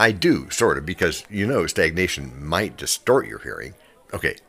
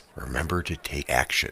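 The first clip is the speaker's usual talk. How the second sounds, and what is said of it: Lowered, quieter voice. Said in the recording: “let me lower my voice.”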